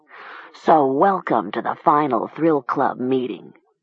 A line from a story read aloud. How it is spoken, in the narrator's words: Seth said bitterly